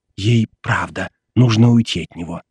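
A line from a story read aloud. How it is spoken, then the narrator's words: Whispered. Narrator (Russian): снова зашептала мне Кэтрин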